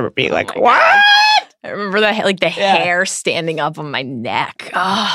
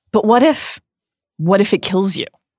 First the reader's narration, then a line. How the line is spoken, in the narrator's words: Harry asks